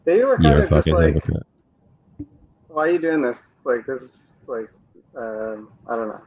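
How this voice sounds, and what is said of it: American English accent. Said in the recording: “You sound like an American.”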